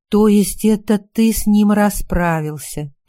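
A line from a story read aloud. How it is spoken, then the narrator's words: Knowing drawl. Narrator (Russian): понимающе протянула я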